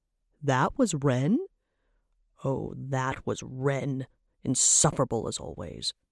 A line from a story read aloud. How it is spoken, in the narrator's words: Trabok growled